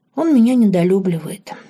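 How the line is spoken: Sighing. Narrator (Russian): вздохнула Лорен

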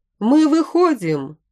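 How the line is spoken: Distant shout from cave. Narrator (Russian): закричал кто-то из пещеры

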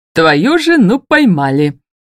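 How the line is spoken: Joyful announcement. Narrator (Russian): радостно сообщает Эрнан

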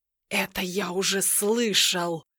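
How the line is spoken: Sorcerer's pompous snake-like hiss. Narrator (Russian): прошипел колдун, будто раздувшаяся от важности змея

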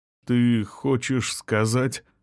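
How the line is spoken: Slow start. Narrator (Russian): медленно начал он

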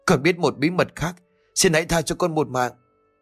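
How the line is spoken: Terrified pleading. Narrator (Vietnamese): Thằng Tí vô cùng sợ hãi nó tiếp tục van xin

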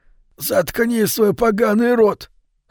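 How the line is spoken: Hoarse bald man. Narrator (Russian): хрипло сказал лысый

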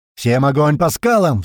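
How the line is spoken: Roaring. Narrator (Russian): взревел туман

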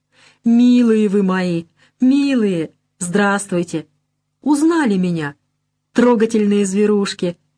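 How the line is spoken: Babbling, laughing and crying. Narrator (Russian): Смеясь и плача, лепечет она

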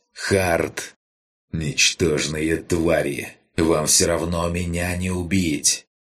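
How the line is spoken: Growl. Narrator (Russian): прорычал вилл

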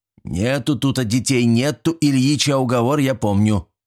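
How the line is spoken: Grumbling caretaker. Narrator (Russian): проворчал завхоз

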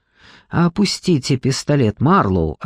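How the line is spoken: Plain. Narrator (Russian): ответил Джекоби

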